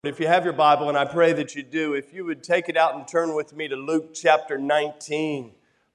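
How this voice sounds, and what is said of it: Lower, congested voice. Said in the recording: “if I sound like my voice is a little bit lower today, that's because it is. ... I seem to have incurred the wrath of the sinus infection”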